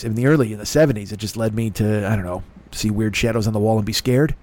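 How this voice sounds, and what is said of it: Rough, congested voice. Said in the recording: “my throat is a little rough... hear that in my voice... my nose is a little, banged out and I'm coughing. I have a super dry cough”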